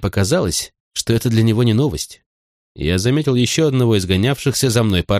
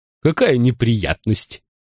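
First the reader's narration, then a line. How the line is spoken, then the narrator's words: Giggling. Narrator (Russian): хихикнул он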